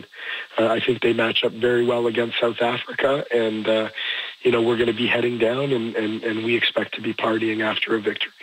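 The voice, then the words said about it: Hoarse voice. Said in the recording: “a hoarse voice”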